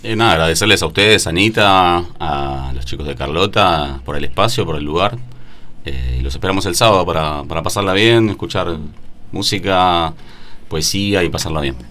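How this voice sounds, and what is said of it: Radio announcer-like voice. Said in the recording (Spanish): “Tiene voz de locutor este hombre, che ... con voz de locutor”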